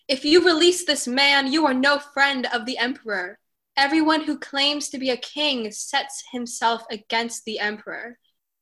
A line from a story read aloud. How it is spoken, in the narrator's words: the Judeans cried out